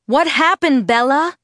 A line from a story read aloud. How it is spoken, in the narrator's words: Charlie shouted through the door